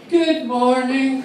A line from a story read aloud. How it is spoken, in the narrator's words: with their little chirpy voice